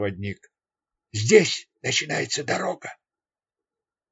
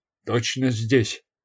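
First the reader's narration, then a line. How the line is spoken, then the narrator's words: Plain. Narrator (Russian): спросил он проводника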